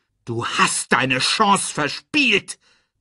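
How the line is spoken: Roaring. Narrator (German): brüllte er

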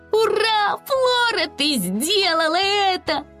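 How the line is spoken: Joyful shout. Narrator (Russian): радостно прокричала Чатта

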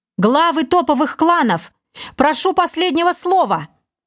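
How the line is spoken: Full-force yell. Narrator (Russian): Что есть мочи, заорал Олег

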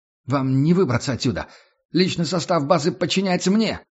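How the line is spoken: Shouted. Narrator (Russian): выкрикнул Мун

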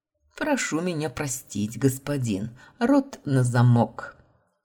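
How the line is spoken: Snide mocking. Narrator (Russian): Ехидно оскалился блондин

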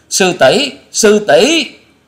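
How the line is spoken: Terrified shrieks in unison. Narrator (Vietnamese): Tạ Trinh Trinh, Bạch Dân Dân, Trịnh Bội Hà cùng kinh hãi rú lên

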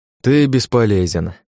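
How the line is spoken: Sighing. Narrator (Russian): вздохнул я

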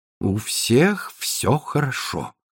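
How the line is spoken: Mutter. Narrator (Russian): пробормотал он

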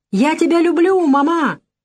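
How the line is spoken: Girl shouting. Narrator (Russian): Дочка крикнула

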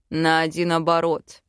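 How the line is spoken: Snort. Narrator (Russian): фыркнул муж

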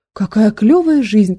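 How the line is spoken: Moaning. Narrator (Russian): простонал Никита

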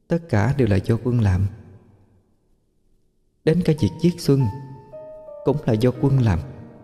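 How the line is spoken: Soft whisper. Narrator (Vietnamese): Tiếng chị May vang lên khe khẽ bên tai Minh Anh

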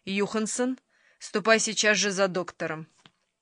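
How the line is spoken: Stern command. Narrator (Russian): строго приказала

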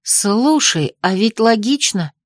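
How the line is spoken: Plain. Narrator (Russian): сказала я

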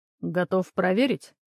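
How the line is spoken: Cold statement. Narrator (Russian): холодно произнес Антон

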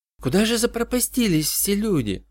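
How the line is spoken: Whispered question. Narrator (Russian): шепотом спросила Джоанна

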